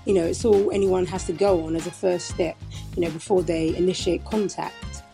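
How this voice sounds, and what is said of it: British accent. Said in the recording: “your accent is just the best ... you just have the best voice ... I love British accents ... convert them into a British accent”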